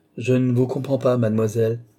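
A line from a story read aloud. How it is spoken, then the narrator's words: Curt, dry tone. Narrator (French): dit Tavernet d'un ton sec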